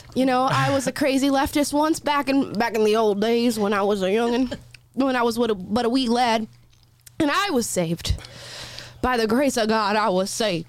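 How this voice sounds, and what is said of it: Put-on accent. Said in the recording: “I don't know why this is making me do accents.”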